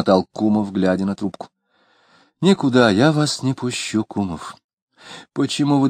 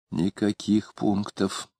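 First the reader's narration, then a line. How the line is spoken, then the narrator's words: Fervent whisper. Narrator (Russian): горячо шепнула Варвара в ухо мужа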